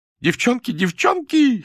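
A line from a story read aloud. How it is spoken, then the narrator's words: Laughing. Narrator (Russian): хохотала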